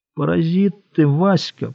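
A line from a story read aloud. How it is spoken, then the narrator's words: Quiet. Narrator (Russian): продолжал Кощей тихонько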